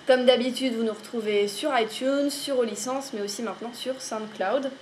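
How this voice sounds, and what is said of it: French-accented English word. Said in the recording (French): “avec un petit accent frenchie, Frenchy”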